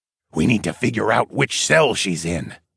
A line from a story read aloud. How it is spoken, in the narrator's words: Darwin whispered